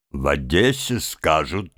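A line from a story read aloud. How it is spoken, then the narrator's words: Businesslike tone. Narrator (Russian): начал он дельным голосом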